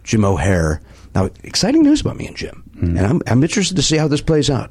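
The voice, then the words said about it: South Side Chicago accent. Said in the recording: “my dumb South Side Chicago accent”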